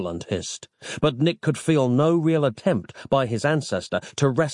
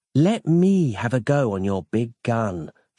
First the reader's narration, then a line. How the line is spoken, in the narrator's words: she cooed throatily